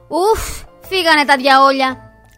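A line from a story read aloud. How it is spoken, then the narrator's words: Woman shouting. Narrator (Greek): φώναξε η κυρία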